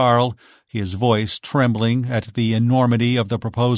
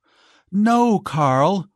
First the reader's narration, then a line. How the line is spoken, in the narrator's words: cried Giselle